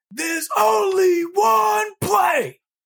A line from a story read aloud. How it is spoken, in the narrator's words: they all yell back